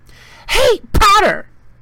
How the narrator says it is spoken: shrieked Pansy Parkinson, a Slytherin girl

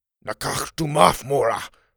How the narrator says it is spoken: he said in a harsh whisper

